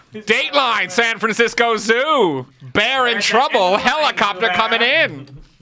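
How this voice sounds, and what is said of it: Old-timey 1920s newscaster voice. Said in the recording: “You sound like a guy that sells weed at a festival ... the 1920s newscaster ... talk like Dick Tracy villains”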